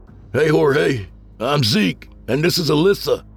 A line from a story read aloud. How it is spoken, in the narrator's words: I shouted over the god-awful buzz of the swarm